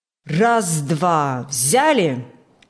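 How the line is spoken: Loud, measured command. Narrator (Russian): Громко и размеренно командовал бригадир Иван Фокт

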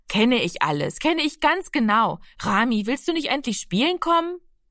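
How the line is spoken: Calling out. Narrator (German): rief sie

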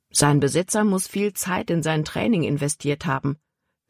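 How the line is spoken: Plain. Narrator (German): sagte Caleb

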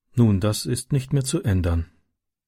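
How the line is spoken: Sad woman. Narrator (German): sagte sie traurig

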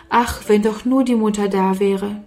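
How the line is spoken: Sighing. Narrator (German): Oft seufzte Sarah

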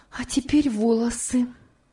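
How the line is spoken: Exclaiming. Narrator (Russian): воскликнула она

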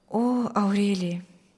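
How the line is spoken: Quiet reply. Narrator (Russian): тихо отвечал Мирослав

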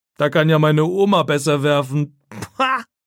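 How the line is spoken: Mocking. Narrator (German): sagt er spöttisch

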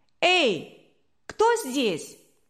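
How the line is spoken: Thin boyish shout. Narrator (Russian): тонкий мальчишеский голос крикнул

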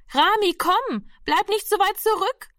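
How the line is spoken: Calling out again. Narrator (German): rief die Schwester schon wieder

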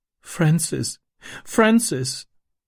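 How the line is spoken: Sobbing. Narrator (German): schluchzte sie

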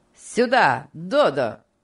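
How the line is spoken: Commanding shout. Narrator (Russian): повелительно крикнул Энрик

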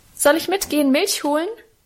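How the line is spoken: Cheerful call. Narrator (German): rief ich ihm munter zu

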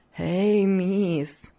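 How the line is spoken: Continued laughing. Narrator (Russian): все смеясь продолжала Хлоя

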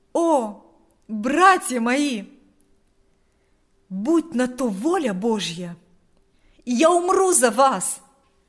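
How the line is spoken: Exclaimed. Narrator (Russian): воскликнул Павел

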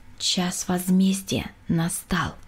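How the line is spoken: Quiet. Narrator (Russian): тихо сказала

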